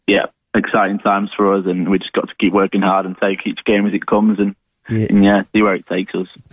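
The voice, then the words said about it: Manchester English accent. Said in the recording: “He'd be from Manchester, wouldn't he? With that accent.”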